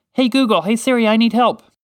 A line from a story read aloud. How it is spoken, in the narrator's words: shouted out